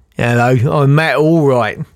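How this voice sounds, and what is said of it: Impression of Matt Allwright. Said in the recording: “my Matt Allwright impression”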